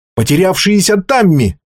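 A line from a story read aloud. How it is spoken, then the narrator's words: Shout. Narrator (Russian): крикнул он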